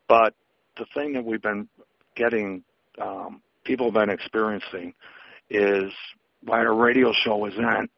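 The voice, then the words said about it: Hoarse, strained voice. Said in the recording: “excuse me, I'm losing my voice,”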